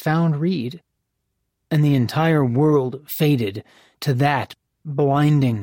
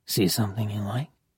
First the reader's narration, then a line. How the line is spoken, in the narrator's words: murmured in her ear